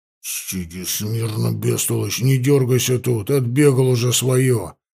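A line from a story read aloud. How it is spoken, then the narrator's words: Hoarse men's voices. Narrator (Russian): Слышались хриплые голоса егерей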